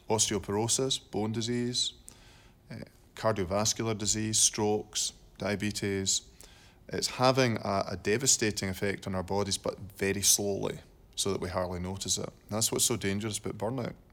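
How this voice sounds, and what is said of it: Distinctive cool accent. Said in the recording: “that cool accent”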